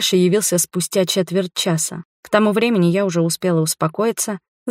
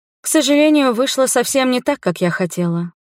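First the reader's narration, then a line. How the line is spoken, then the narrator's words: Sighing. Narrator (Russian): вздохнула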